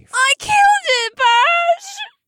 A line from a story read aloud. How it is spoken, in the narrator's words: Alyssa wailed, and the tears were set free in a torrential downpour